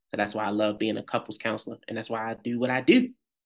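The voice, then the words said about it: Baltimore accent. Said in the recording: “I'm hearing that Baltimore accent come through”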